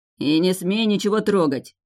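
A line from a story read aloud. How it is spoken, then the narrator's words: Growl. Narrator (Russian): рыкнул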